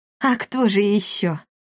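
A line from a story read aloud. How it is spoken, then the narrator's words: Relieved sigh. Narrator (Russian): Повара облегченно вздохнули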